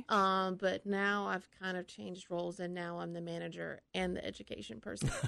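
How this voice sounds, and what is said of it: Southeastern Kentucky accent. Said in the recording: “that accent isn't Yuma ... I'm from Kentucky. I'm from Southeastern Kentucky.”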